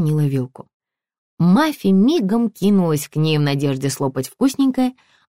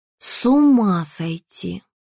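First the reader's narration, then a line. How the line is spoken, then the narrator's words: Drawling. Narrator (Russian): протянула Маша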